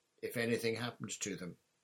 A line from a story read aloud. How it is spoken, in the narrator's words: said Sirius stiffly